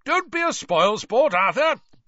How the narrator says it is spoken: boomed Ludo Bagman

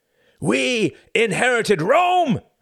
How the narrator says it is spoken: screamed the man

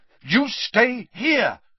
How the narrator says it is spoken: Harry repeated angrily

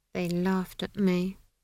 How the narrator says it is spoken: Esk mumbled

